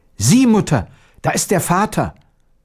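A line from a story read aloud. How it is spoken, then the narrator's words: Boy exclaiming. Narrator (German): Der Knabe rief aus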